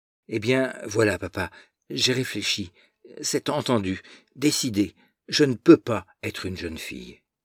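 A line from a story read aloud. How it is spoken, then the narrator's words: Rapid, breathless. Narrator (French): très vite, d'une voix haletante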